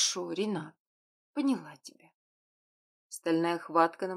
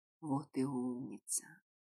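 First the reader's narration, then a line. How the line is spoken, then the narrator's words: Tender whisper. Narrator (Russian): ласково прошептал Альфа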